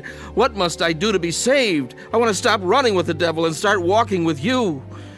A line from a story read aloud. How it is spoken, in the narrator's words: I cried out to God